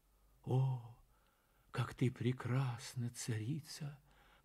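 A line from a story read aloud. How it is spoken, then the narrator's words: Whispered. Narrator (Russian): прошептал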